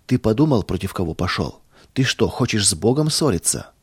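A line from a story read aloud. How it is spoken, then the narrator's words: Calm. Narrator (Russian): спокойно сказал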